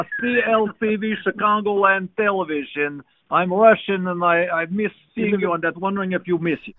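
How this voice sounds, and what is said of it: Attempted Russian accent, like Gru. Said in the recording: “I didn't know Gru from... Despicable Me worked in the building. ... trying to do like a Russian accent”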